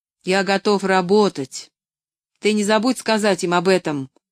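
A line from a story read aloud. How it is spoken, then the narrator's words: Stern parting instruction. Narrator (Russian): строго напутствовал он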